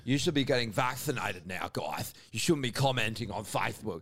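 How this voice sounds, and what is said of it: Imitates another person's voice. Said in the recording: “your impersonation of him. It's so good.”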